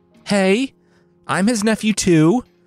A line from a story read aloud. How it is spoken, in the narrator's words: Yvain called out